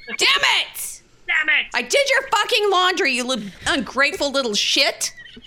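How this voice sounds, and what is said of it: Loud angry yelling. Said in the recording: “She hears you in here... hollering... Yelling... why are you yelling?”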